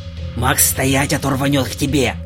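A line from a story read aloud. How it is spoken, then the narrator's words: Hissed. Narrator (Russian): Прошипел Миша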